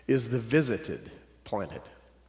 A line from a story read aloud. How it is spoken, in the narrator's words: replied the senior angel solemnly